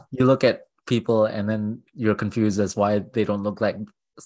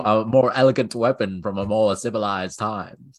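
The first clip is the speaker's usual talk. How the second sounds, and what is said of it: Imitates Obi-Wan Kenobi's voice. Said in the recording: “Is that your impression of Obi-Wan? ... It's my impression of Ewan McGregor, Alec Guinness, and James Arnold Taylor rolled into one.”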